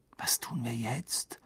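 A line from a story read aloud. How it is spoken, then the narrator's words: Quiet question into ear. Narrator (German): fragte Ron leise in Harrys Ohr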